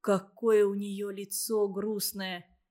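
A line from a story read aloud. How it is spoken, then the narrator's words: Quiet. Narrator (Russian): тихо сказал Павке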